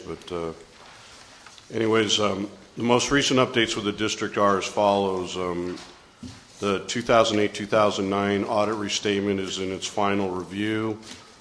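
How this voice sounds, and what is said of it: Voice worn from illness. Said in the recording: “I apologize for my voice. I've been fighting something for about 5 days”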